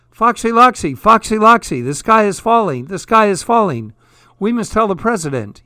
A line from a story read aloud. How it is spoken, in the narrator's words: yelled Chicken Licken, Ducky Lucky, Goosey Lucy, and Cocky Locky